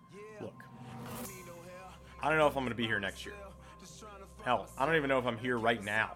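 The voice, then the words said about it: Loud, fired-up shouting voice. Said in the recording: “Just fired the hell up. Can't you hear it in my voice? I'm scaring the dogs.”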